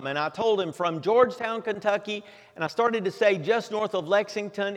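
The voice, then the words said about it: Southern American drawl. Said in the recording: “what was probably obvious given my southern drawl”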